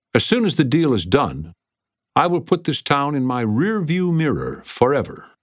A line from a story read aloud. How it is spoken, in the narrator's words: Lawton called out to Jesse